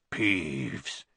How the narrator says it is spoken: said in a hoarse whisper

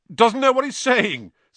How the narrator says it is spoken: said Lockhart loudly to the anxious crowd of Gryffindors

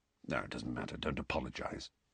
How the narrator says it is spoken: Sirius mumbled

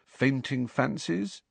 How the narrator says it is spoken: Harry suggested quietly

